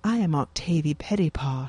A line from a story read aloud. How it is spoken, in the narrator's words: she says, her voice tight with fear